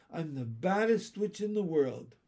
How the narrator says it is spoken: she cried

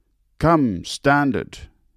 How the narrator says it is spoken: he gleefully cried

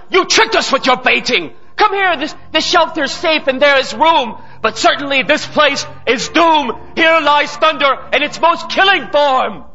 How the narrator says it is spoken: someone cried

